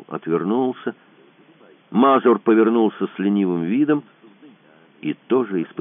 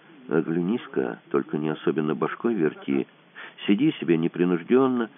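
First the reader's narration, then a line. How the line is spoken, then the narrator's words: Quiet. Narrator (Russian): Тихо сказал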